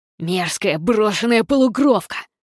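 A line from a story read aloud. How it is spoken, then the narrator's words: Growl. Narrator (Russian): прорычал кто-то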